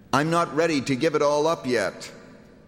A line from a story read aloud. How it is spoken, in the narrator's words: he shouted back